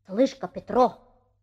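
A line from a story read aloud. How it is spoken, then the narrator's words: Mysterious voice. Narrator (Russian): начал Николка таинственным голосом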